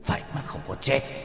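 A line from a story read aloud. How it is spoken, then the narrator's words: Muttering. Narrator (Vietnamese): đạo sĩ lẩm bẩm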